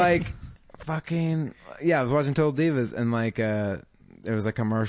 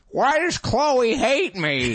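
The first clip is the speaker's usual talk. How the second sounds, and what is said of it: Creepy old man narrator voice. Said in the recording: “that fucking voice, I couldn't stop doing that voice... What a fucking narrator's voice... she's got such a creepy old man voice”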